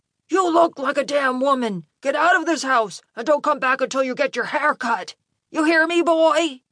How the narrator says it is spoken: His dad was shouting belligerently

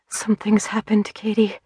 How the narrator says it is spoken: Biddy whispered

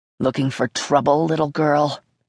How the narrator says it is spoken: growled

